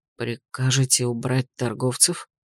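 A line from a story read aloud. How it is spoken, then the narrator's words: Almost whispered question. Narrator (Russian): стражник спросил почти шепотом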